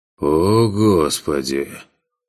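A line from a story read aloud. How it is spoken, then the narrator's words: Sighing. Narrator (Russian): Вздохнул тот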